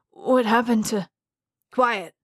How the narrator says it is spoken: the guard snapped

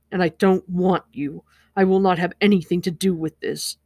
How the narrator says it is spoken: said harshly

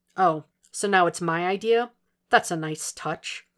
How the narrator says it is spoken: Will said dryly

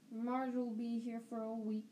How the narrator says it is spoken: Uncle Vernon snarled

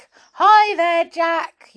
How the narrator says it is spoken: yelled Saucepan

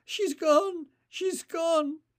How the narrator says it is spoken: chest heaving with great gulping sobs

